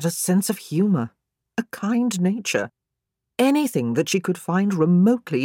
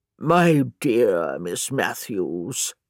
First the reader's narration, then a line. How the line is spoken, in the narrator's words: he said in a deep, croaking voice